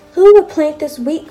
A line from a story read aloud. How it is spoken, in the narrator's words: cried the little red hen